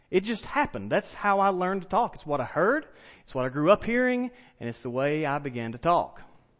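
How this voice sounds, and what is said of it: Southern drawl accent. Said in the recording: “my southern accent ... that drawl, that twang, that whatever it is that you hear in my voice”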